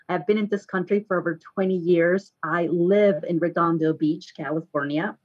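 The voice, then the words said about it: Mexican Spanish accent. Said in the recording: “I'm original from Mexico. So yes, that accent doesn't go away.”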